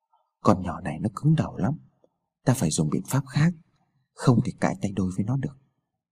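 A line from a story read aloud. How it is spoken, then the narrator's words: Whisper in ear. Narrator (Vietnamese): Chồng Sáu nở thì thầm vào tai vợ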